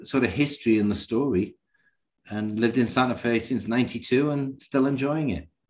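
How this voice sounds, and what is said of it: Northern English accent. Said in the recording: “Newcastle upon Tyne... trying to place this accent... it's a mix of, you know, North London, Yorkshire, you know, a little bit of Edinburgh in there, but mostly kind of centered around Yorkshire... North England”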